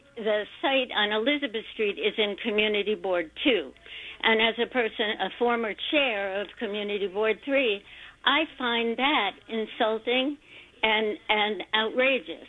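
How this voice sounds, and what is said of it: Angry, heated speaking voice. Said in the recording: “you can tell from my voice how angry it makes me”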